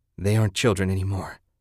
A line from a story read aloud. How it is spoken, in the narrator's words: Ted panted